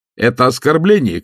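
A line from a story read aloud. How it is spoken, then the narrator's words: Distant shout. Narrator (Russian): кричал он издали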